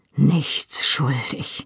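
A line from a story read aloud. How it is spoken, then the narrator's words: Murmured to himself. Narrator (German): murmelte er wie zu sich selbst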